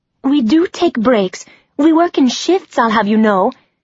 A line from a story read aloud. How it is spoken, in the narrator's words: shouted the other blondie